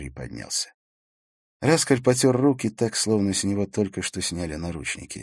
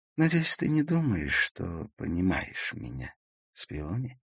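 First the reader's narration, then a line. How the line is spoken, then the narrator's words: Quiet voice. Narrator (Russian): сказал он тихим голосом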